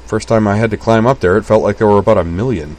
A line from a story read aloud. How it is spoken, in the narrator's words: said Utena